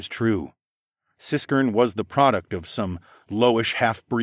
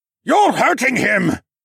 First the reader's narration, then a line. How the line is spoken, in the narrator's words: another voice shouted